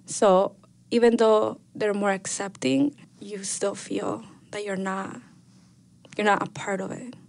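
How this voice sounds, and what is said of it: Thick non-native English accent. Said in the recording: “my accent, you know, it's really thick, but it was worse back then”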